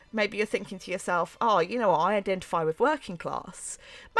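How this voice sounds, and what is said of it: Mockney London accent. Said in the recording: “I have this Mockney accent.”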